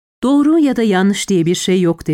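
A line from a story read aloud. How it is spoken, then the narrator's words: Plain. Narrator (Turkish): dedi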